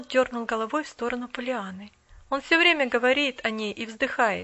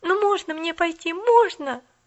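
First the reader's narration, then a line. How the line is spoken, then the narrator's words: Pleading. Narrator (Russian): взмолилась Поллианна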